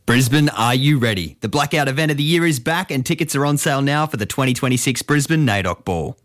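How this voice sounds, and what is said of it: Announcer-style radio voice. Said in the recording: “I'll do the radio voice.”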